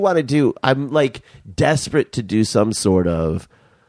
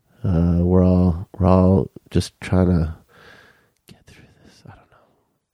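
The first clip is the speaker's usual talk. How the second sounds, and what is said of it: Whispering. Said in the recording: “And now you're whispering?”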